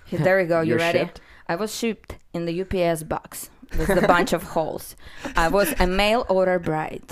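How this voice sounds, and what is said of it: Russian accent. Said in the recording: “you got the great, beautiful accent going on. You're from Russia”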